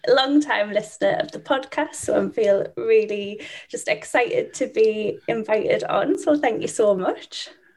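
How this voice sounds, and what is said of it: British accent. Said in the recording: “I'm from the UK. I'm sure that you can probably guess by my little bit crazy accent”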